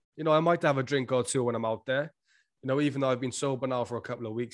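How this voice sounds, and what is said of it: Fast-talking Welsh accent. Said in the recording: “this British guy ... because I'm Welsh, like we talk a little fast. That's why sometimes it sounds like I'm slurring my words”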